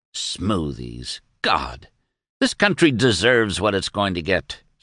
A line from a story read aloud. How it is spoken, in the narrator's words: snapped Doremus